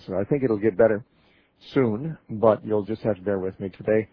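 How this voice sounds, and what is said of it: Congested, slightly affected voice. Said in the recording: “My voice is still a little affected from allergies ... I got a little congested, and my voice has been affected ever since”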